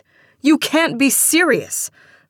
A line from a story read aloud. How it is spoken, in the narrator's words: Marcia shouted, angrily